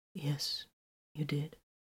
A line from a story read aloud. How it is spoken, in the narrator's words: he said softly